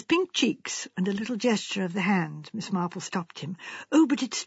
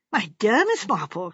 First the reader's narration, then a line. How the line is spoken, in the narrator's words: cried the Colonel, horrified